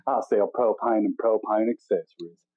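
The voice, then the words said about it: Deep Southern accent, Hank Hill impression. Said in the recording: “that deep South accent, I just think of that show, King of the Hill”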